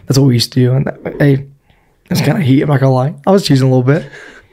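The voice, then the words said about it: Hoarse, strained voice. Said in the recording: “I lose my voice in 1 week of being here.”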